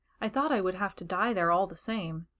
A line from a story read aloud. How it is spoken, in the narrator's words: he said